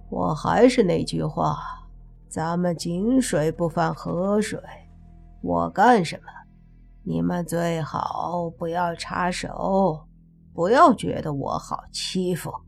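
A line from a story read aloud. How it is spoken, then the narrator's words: Amused. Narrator (Chinese): 司机有些好笑地说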